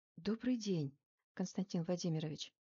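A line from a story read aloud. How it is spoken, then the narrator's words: Whispered. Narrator (Russian): шепотом произнесла я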